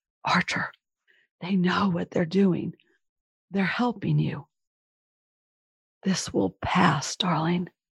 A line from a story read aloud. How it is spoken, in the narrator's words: I again whispered